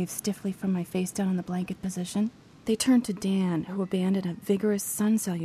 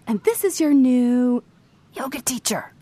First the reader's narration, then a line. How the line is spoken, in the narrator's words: I choked